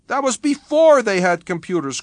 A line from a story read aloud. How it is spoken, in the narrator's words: cried Paul